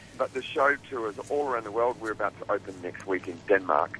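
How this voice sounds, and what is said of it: Australian accent. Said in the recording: “you can tell from my accent, I'm Australian.”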